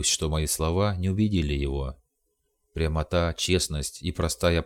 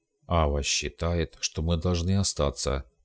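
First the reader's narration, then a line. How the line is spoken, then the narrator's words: Muttered. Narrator (Russian): пробормотал он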